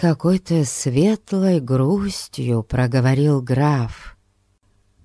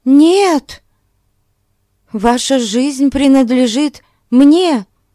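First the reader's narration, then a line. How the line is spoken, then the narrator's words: Exclaiming. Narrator (Russian): Воскликнула Консуэло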